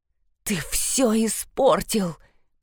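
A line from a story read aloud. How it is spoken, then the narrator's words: Hissing. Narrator (Russian): прошипела Диана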